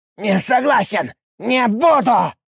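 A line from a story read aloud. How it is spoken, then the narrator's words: Shouting. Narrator (Russian): закричал ушастый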